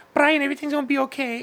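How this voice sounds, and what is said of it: Imitates another person's voice. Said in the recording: “my abuela ... that's my impersonation.”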